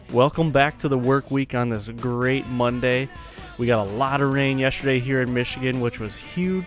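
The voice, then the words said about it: Excited, upbeat voice. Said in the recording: “I'm super excited. You can probably tell in my voice”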